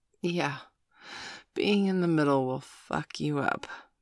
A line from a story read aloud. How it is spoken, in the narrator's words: Miss Angeli cooed, letting out a little reflective sigh